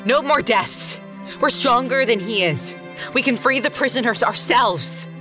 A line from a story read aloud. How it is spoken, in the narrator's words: Sparrow leapt up on the table and yelled